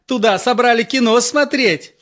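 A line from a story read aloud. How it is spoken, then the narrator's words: Cheerful question. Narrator (Russian): спросила Нюра весело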